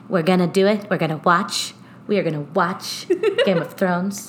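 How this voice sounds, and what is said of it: Imitates another person's voice. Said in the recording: “my poor impression of DJT”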